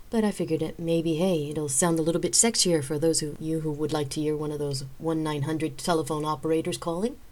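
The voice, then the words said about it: Froggy, hoarse voice from cold. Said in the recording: “As you can hear, my voice is a little bit froggy this week. I'm still trying to get over a little bit of a flu cold”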